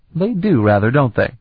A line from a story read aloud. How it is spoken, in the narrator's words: Sarabian laughed